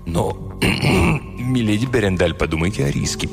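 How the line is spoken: Mumbled. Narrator (Russian): пробормотал он

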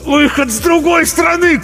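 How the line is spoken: Strangled shout. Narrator (Russian): крикнул Артамонов, сдавленный

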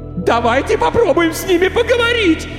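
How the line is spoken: Hysterical screaming. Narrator (Russian): истерично кричала девушка

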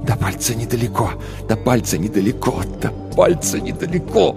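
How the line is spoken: Repetitive incantatory whisper. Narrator (Russian): Тил шептал одну и ту же фразу, словно заклятие

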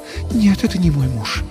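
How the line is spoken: Sighing. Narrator (Russian): вздохнула она

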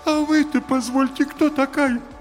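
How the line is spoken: Thin whining question. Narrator (Russian): тонким плачущим голосом спросил

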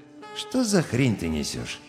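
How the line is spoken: Quiet, bored question. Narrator (Russian): Тихим и скучным голосом Крейвен осведомился

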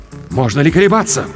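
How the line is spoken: Ardent exclamation. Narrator (Russian): пылко воскликнул рыцарь

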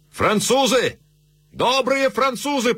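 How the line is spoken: Shouting. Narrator (Russian): прокричал он

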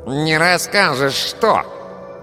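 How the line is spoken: Nasal voice nearby. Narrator (Russian): спросил гнусавый голос рядом

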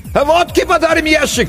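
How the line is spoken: Shouted from a distance. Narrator (Russian): крикнули оттуда

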